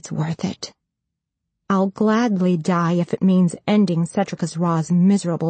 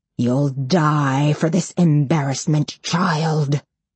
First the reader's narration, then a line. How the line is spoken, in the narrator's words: he snarls